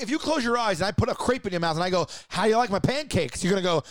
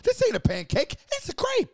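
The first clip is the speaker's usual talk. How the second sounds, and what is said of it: High-pitched imitation of another person. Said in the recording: “you're gonna say it high like that. That's how your voice is gonna”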